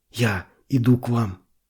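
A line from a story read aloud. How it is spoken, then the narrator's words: Whispered. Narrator (Russian): прошептал он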